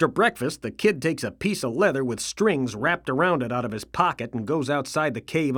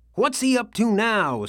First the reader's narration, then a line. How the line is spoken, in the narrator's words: says Bill anxiously